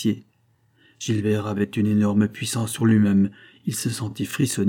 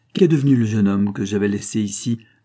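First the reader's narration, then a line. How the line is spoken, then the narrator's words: Plain. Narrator (French): demanda Isidore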